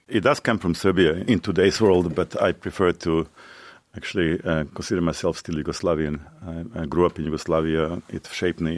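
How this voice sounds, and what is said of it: Serbian-accented English. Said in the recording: “that wonderful accent that I believe comes from Serbia”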